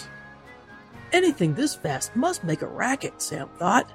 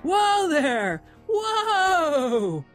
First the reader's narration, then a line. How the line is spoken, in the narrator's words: shouted